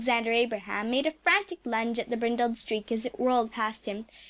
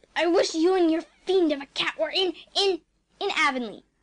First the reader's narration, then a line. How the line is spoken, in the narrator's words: I finished quickly